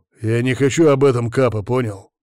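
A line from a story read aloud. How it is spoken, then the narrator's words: Growl. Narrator (Russian): прорычал я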